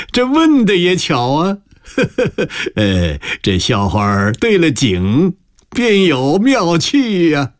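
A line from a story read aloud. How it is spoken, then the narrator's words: Flattering laugh. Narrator (Chinese): 余国柱 附和着讨好，笑道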